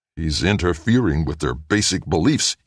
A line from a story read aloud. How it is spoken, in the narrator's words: he growled